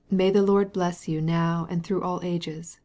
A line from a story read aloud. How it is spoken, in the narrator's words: replied the old priest, in a sweet and musical voice